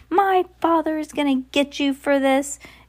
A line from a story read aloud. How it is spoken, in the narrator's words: he had leapt up and shrieked